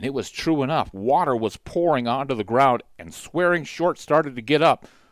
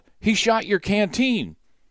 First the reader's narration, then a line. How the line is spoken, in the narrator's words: Kesney yelled